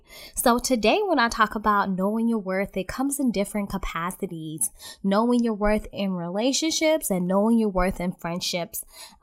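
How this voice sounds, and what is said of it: Stuffy congested voice, weak projection. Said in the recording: “excuse my voice because I've been sick for the last 2 weeks. So it's kind of difficult for me to project and I probably do sound kind of stuffy”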